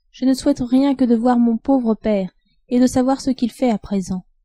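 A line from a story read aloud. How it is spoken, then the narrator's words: Sighing. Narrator (French): dit-elle en soupirant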